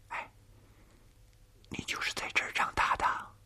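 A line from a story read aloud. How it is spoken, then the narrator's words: Soft question. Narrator (Chinese): 玉儿轻声地问童年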